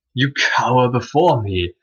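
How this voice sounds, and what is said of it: Ralph Fiennes as Voldemort impression. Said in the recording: “That's not a very good Ralph Fiennes impression.”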